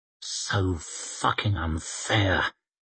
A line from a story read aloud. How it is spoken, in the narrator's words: Cantlis muttered to himself